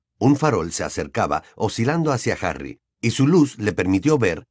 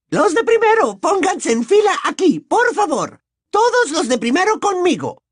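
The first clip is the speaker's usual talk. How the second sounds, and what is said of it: Woman shouting energetically. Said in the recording (Spanish): “voz de mujer, muy diferente, gritaba con un enérgico tono”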